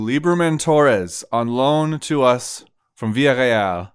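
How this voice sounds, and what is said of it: Put-on French accent. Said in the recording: “I said that with a French accent”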